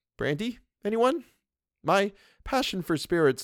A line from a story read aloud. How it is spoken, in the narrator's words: Luke, although his face was white and his voice trembled, said lightly